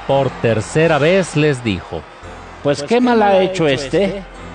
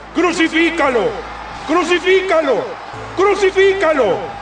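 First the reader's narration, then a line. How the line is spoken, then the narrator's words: Crowd shouting. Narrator (Spanish): gritaron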